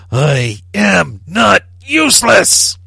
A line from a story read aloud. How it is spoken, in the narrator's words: The rage inside him burning white hot, he yelled